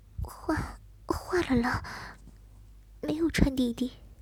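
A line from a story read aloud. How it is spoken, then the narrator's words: Soft, head lowered. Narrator (Chinese): 低着头，轻声回答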